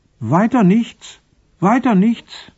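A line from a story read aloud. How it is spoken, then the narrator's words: Disappointed call from background. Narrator (German): Enttäuscht rief einer aus dem Hintergrund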